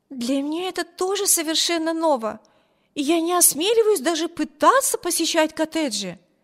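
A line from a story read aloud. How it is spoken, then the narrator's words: Exclaiming. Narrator (Russian): воскликнула Эми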